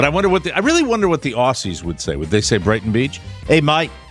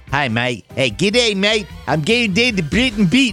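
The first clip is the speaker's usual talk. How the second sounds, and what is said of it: Put-on Australian accent drifting South African. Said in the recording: “My Aussie dialect always goes into my South African”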